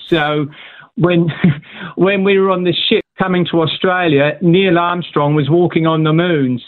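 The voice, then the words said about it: British accent. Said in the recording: “I do love your accent... so I know a little bit about the British accent”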